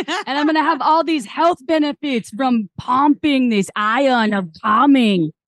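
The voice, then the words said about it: Arnold impression accent. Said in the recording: “did you get Arnold from my accent, by the way, or no? Did you get any Arnold?”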